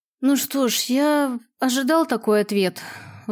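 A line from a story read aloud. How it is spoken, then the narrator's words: Sighing, resigned. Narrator (Russian): вздохнул Киллан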